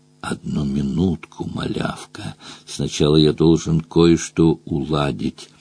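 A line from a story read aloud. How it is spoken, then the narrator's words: Soft whinnying. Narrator (Russian): Дром тихонько проржал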